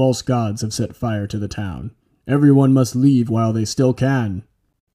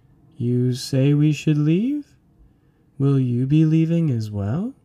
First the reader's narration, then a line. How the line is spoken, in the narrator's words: began in a dreamy voice